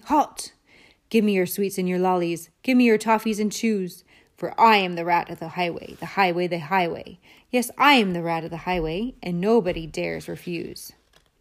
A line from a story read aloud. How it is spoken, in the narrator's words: a Highway Rat, who bellowed a deafening